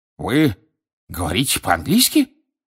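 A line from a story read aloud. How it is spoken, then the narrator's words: Indignant exclamation. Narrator (Russian): возмущенно воскликнул Фадж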